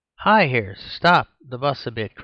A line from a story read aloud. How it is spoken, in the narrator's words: cried Mr